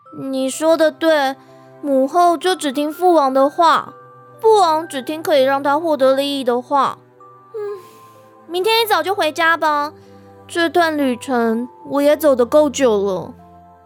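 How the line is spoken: Sighing. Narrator (Chinese): 元宇听到这里，叹了口气

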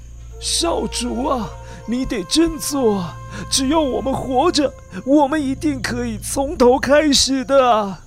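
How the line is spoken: Sighing, loyal old servant. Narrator (Chinese): 忠心耿耿的管家感叹地对着少主说

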